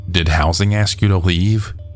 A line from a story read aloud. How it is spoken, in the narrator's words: she asked